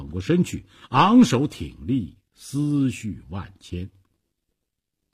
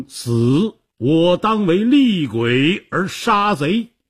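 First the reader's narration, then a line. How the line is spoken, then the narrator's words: Great roar. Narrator (Chinese): 他大吼一声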